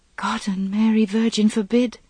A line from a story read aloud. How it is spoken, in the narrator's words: she whispered